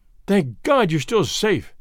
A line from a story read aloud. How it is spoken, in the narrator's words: gasped